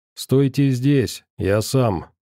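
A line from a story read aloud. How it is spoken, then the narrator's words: Gloomy. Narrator (Russian): мрачно сказал Сагитай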